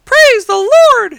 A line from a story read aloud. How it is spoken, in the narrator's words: she cried